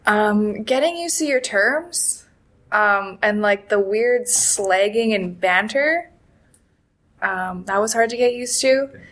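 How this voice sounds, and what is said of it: Accent, 'about' sounds like 'a boot'. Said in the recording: “everybody makes fun of my accent. Like, people say I say a boot. I say about.”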